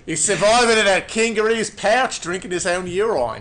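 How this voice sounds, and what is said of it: Convincing put-on Australian accent. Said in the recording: “That's actually a really good fucking Australian accent”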